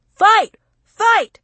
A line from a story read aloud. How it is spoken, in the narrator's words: somebody yelled